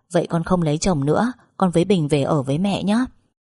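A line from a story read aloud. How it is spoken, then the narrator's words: Laughing reply. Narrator (Vietnamese): bật cười đáp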